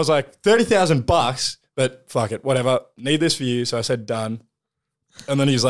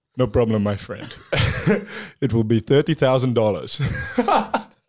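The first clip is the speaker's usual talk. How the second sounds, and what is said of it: Put-on Yugoslavian accent. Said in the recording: “I don't know what people from Yugoslavia sound like, but this is... Do the voice.”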